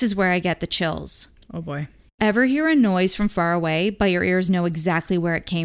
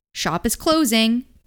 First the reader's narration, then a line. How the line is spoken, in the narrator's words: yelled